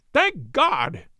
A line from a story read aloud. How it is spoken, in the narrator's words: he cried